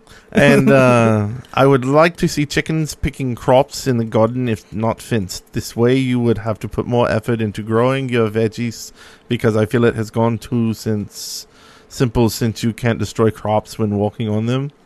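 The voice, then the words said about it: Poor imitation of another person's accent. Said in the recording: “That was a horrible Notch. ... Yeah, that is a really terrible Notch accent.”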